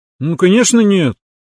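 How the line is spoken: Offended declaration. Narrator (Russian): обиженно заявила политически подкованная спарринг-партнер

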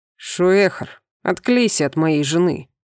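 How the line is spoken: Growl. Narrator (Russian): Снова прорычал Сунир

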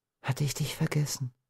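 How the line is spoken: Whispering. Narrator (German): wandte sie sich flüsternd an den Strauch

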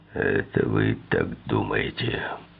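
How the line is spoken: Grumbling. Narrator (Russian): проворчал Шапейро

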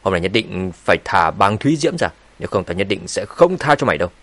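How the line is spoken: Threatening. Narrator (Vietnamese): Thạch Bằng nói với giọng đầy uy hiếp

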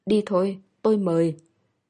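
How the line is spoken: Hoarse voice. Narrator (Vietnamese): khàn khàn nói

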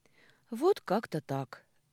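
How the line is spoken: Sigh. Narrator (Russian): вздохнула я

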